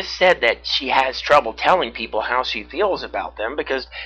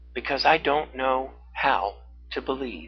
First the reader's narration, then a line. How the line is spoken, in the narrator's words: she answered softly